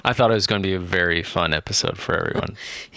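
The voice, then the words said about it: Sarcastic delivery. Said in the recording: “He's being sarcastic.”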